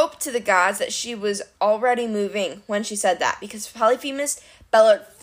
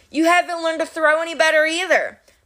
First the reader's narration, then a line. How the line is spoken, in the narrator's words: Annabeth shouted